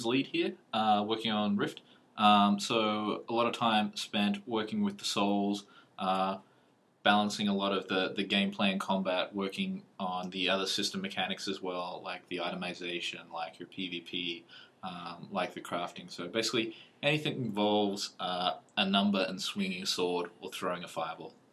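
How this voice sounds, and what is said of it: Australian accent. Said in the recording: “has an Aussie accent”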